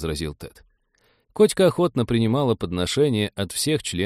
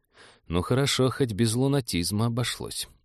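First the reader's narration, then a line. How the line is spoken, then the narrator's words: Relieved sigh. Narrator (Russian): облегченно вздохнул капитан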